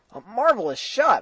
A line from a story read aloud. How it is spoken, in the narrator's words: I cried, genuinely stirred